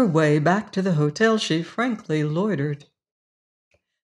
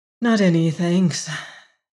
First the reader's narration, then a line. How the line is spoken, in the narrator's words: Emma McChesney replied, a little wearily